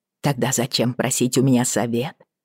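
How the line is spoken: Snapping retort. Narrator (Russian): огрызнулась я

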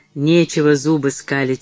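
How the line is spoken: Angry grumble. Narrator (Russian): сердито проворчал Митчелл

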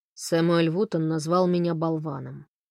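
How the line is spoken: Gloomy. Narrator (Russian): мрачно сообщил Фрэнк

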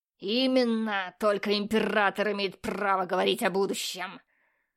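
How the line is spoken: Harsh bark. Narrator (Russian): рявкнул инквизитор

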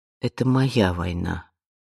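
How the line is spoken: Quiet. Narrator (Russian): тихо сказала Вианна

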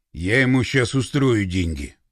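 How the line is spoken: Through gritted teeth. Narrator (Russian): процедил Пашка

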